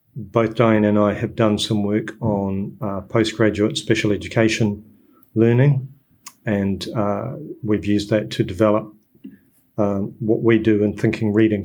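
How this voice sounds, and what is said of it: New Zealand accent. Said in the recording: “as you can hear, my accent is a New Zealand one”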